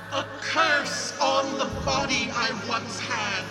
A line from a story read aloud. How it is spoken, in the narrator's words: wailed to him